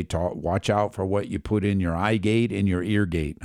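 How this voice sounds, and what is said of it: Imitates another person's voice. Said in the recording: “a lame way to do his voice, you know, an impersonation”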